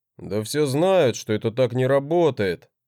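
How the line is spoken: Displeased grumble. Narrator (Russian): проворчал с недовольным лицом

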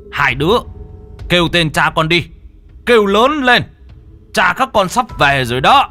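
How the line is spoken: Loud shout. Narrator (Vietnamese): Ông hét lớn

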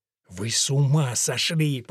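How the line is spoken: Hissing. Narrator (Russian): прошипел Уильям

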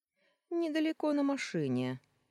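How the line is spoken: Cheerful explanation. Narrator (Russian): весело пояснил

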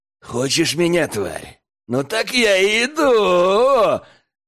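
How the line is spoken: Hoarse laugh. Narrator (Russian): хрипло рассмеялся парень

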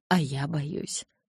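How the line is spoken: Whisper. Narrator (Russian): прошептал он

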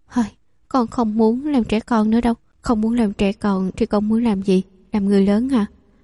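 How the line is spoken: Sighing. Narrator (Vietnamese): Hạ Diễm lại thở dài nói

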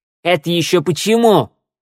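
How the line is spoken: Barked. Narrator (Russian): рявкнула Шныряла

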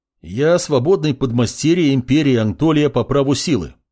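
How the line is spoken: Loud warning. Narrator (Russian): громко произнес маг, чтобы предупредить незнакомцев

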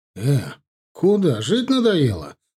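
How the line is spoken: Exclaiming. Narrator (Russian): воскликнул я

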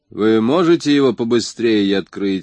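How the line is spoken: Plain. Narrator (Russian): спросил Купер

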